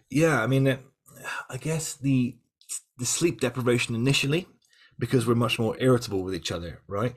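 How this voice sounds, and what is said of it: Semi West Country, semi posh accent. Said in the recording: “I've got a sort of West Country, but semi West Country, semi posh accent. So sometimes my my words get slurred.”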